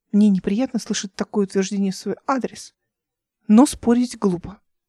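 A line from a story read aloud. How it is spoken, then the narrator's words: Quiet. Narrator (Russian): тихо сказала она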